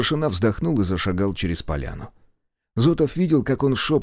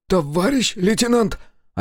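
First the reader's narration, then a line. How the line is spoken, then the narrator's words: Hoarse call. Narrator (Russian): осипшим голосом позвал Волжин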